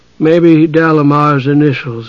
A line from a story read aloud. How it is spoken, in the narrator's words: he said to himself drowsily